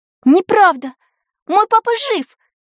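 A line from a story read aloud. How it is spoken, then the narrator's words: Shouted. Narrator (Russian): крикнула она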